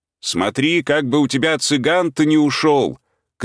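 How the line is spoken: Parting shout. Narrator (Russian): крикнул он на прощание

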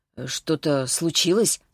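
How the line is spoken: Hoarse question. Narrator (Russian): спросил хрипло

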